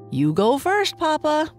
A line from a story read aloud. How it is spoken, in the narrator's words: Boo Boo said with a laugh